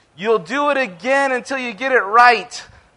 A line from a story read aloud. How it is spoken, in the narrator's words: someone from the crowd shouted